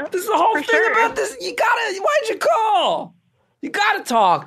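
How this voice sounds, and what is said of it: Yelling, loud voice. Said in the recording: “stop yelling at me ... I'm yelling too much”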